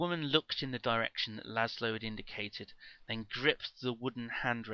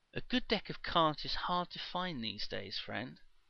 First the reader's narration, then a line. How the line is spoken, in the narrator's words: said Zerzura soothingly